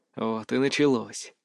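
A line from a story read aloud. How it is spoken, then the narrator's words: Silent inner sigh. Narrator (Russian): мысленно вздохнул я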